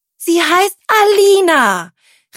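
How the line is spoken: Angry shout. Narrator (German): rief Tilda wütend

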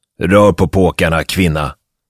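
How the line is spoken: Roared contemptuously. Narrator (Swedish): röt Grant föraktfullt

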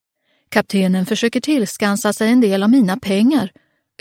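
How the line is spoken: Exclaiming. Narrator (Swedish): utbrast Sigurd

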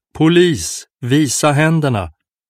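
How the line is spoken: Loud roar. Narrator (Swedish): vrålade högt

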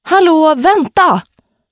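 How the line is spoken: Calmer call. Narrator (Swedish): ropade Sunny efter att hon lugnat ner sig

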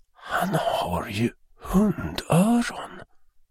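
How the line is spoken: Horrified whisper. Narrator (Swedish): viskade mamman med iskall fasa i rösten

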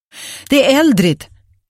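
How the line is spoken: Calling from hallway. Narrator (Swedish): ropade Agnes från hallen

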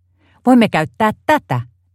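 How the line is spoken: Exclaiming. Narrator (Finnish): Timpa huudahti

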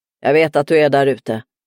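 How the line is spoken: Roaring. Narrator (Swedish): röt

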